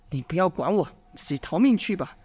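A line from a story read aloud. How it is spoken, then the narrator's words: Low, urgent. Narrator (Chinese): 杨兴…低声嘱咐着弟子说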